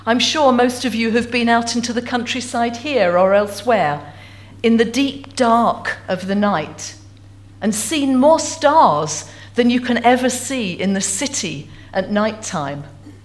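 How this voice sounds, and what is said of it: Essex English accent. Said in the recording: “as you can tell from my accent, I'm not originally from Stornoway. In fact, I have to own up to being an Essex girl.”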